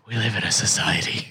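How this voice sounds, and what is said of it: Weirdly low voice. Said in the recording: “he does it in this weirdly low voice”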